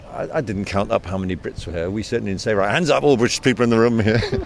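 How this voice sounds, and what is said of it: British accent. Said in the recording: “as you can tell by my accent, I'm of British origin myself.”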